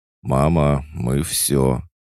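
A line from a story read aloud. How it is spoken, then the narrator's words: Cheerful voice. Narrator (Russian): обращение, сказанное бодрым голосом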